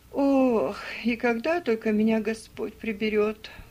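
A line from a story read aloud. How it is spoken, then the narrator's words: Muttering. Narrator (Russian): пробормотала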